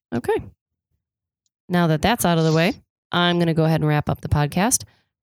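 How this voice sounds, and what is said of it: Raspy, sick-sounding voice. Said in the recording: “I'm still sick. ... It wasn't sexy. It was raspy.”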